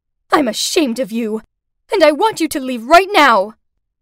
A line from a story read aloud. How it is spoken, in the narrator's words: Furious, Mom shouted out